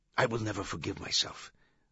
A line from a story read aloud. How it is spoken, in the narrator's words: the doctor whispered